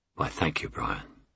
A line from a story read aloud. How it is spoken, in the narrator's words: she purred charmingly